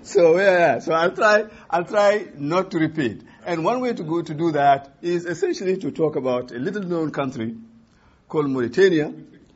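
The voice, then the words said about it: French accent. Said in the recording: “in a bad French accent”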